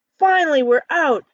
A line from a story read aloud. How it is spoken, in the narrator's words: Ken exclaims